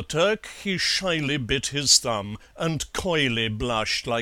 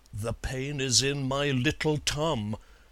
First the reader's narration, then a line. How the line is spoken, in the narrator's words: he whispering at length admitted